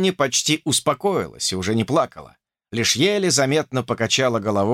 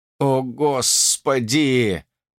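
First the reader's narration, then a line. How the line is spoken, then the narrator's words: Groan. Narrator (Russian): простонал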